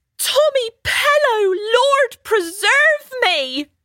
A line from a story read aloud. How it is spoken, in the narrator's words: shouted an elderly woman